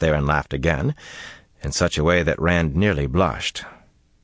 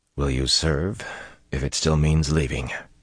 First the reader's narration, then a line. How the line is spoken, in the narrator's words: he asked quietly